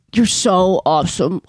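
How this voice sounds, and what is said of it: Imitates another person's voice. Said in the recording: “a really good impression of her”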